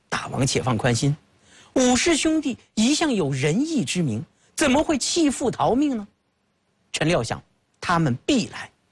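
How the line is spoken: Laughing. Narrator (Chinese): 费无忌笑道

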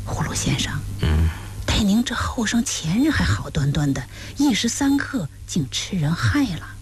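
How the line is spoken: Whisper. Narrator (Chinese): 有人低声耳语葫芦先生

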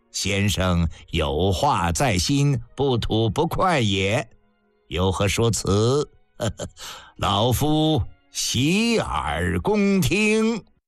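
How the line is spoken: Leisurely, laughing. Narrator (Chinese): 范雎悠然笑道

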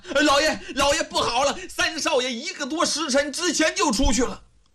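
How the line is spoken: Breathless repeated shouting. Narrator (Chinese): 一边跑一边连声喊呐

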